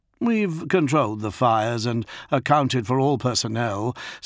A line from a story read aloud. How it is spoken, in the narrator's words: said Forsh